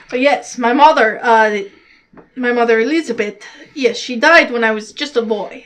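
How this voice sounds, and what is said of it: Put-on character accent. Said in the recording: “that's more me getting into the accent again”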